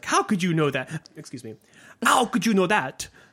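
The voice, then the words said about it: Faltering put-on French accent. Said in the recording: “God, I lost my French accent. Terrible.”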